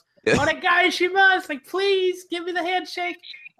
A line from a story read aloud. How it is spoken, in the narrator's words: he just yells